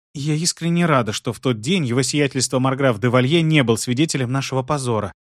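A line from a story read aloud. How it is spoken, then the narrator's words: Near whisper. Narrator (Russian): почти шепотом добавила Бриджит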